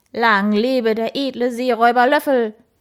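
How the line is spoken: Enthusiastic bark. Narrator (German): bellte er begeistert

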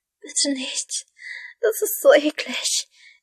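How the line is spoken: Whining. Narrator (German): jammerte sie

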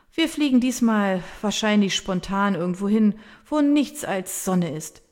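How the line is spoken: Settling after laughter. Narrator (German): fährt Verena fort, als sie sich von ihrem Lachanfall beruhigt hat

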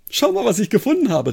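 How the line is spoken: Excited call. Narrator (German): rief er aufgeregt

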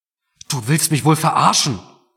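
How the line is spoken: Roaring through splitting headache. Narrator (German): brüllte Mark jetzt, obwohl ihm dabei fast der Kopf explodierte

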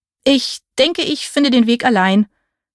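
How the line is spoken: Stammering. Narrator (German): stammelte ich

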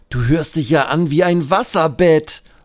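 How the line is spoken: Laughing call. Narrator (German): ruft Benjamin lachend

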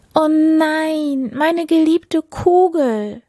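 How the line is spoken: Distressed call. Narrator (German): rief die Prinzessin

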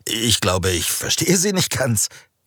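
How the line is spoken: Nervous laughing reply. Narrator (German): Raphael lachte nervös auf und erwiderte

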